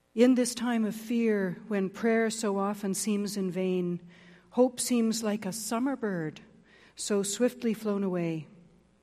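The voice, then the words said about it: Slightly scratchy, hoarse voice. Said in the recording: “my voice is a little scratchy”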